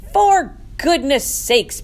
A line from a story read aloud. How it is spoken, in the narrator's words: bellowed Mr